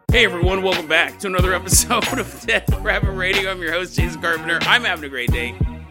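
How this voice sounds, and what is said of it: Congested, sick-sounding wheezy voice. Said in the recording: “What's wrong with your voice? ... my wheezing laugh ... you sound pretty sick. No, it's just a post-nasal drip.”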